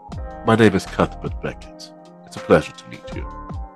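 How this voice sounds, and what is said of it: Put-on accent, character voice. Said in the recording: “Can you say the name in not an accent?”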